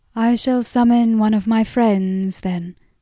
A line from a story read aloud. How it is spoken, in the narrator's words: said the woman